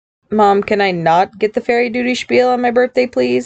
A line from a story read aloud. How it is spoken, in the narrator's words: he requested dryly